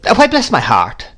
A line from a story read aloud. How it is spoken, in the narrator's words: exclaimed Miss Betsy